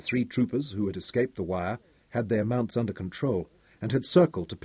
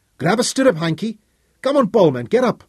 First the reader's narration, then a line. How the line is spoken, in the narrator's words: Fergus raised his voice